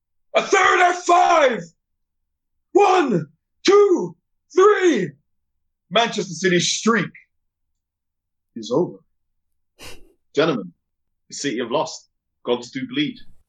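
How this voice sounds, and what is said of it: Wrestling announcer impression. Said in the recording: “my very best WWE Michael Cole impression.”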